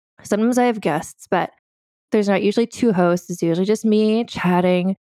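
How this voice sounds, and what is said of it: Speaks with vocal fry. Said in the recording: “I have some vocal fry.”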